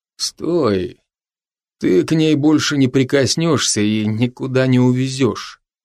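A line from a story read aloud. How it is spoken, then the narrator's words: Quiet, uneven, breathless voice. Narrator (Russian): Неровным голосом, выдававшим чуть сбившееся от быстрого бега дыхания, тихо произнес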